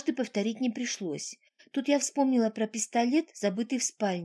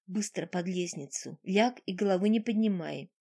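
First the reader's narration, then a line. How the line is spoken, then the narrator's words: Whispered. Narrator (Russian): Полифем шепнул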